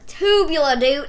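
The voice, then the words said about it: Put-on country accent. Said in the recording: “I said it in, like, a country accent.”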